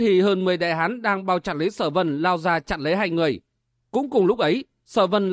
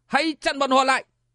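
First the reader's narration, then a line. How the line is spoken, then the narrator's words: Loud shout. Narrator (Vietnamese): Hồng Vũ công tử quát to lên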